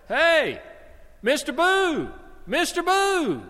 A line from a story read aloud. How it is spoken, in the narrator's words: the boy yelled at him